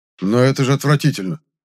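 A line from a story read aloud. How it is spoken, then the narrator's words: Irritated objection. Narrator (Russian): раздраженно возразил мне Зёзик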